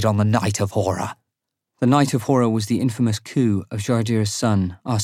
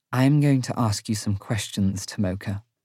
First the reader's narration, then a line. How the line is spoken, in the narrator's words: Inevra says quietly